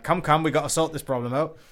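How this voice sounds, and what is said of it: School teacher impression voice. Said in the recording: “doing my best like school teacher impression”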